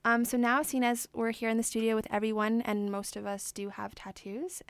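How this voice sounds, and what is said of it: Spanish accent. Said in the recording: “your Spanish accent is charming.”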